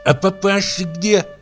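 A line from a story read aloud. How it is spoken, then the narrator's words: Lisping question. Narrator (Russian): спросила она шепелявя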